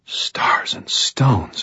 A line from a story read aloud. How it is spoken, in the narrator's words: breathed